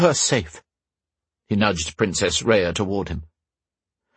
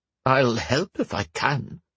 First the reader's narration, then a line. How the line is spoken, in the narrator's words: the kindly man said